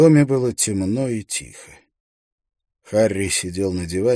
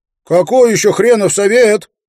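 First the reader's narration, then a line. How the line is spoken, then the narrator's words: Shouting. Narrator (Russian): прокричал Эйстин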